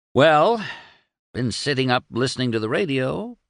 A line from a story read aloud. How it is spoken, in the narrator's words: purred Doremus